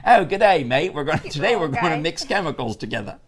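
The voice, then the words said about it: Put-on Australian accent. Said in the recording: “he's learning to talk an Australian accent.”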